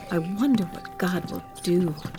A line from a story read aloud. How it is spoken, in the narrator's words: they whispered to each other